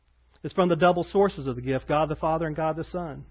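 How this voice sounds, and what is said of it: East Texas twang. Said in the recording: “my East Texas twang doesn't usually translate well”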